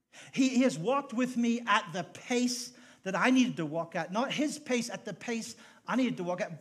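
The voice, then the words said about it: Irish accent. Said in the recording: “people would mock my accent... you didn't understand my accent... why don't you go back to Ireland? We don't need Irish people here.”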